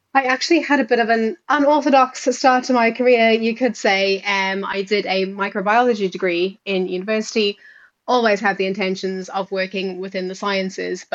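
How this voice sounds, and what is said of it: South African accent. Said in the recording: “you might be able to hear from the accent that I am South African”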